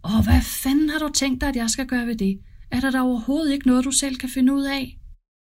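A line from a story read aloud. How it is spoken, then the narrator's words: Angry shouting mother. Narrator (Danish): Mor råber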